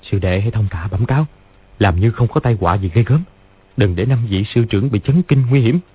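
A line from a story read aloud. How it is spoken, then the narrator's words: Quiet instruction. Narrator (Vietnamese): Lý Chí Tường dặn khẽ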